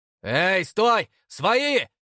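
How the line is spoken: Shouting. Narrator (Russian): крикнул я

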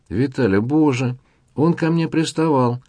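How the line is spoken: Whiny tearful wail. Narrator (Russian): плаксивым голосом затянула Оксана

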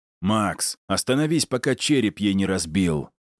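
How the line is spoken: Barked. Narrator (Russian): рявкнул я

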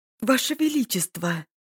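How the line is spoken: Exclaimed. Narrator (Russian): воскликнула она, увидев Прандоса

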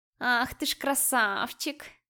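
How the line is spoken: Purring cat. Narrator (Russian): мурлыкала киса

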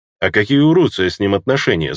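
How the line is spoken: Plain. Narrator (Russian): спросил я

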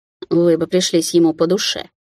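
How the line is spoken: Snort. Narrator (Russian): фыркнула дама

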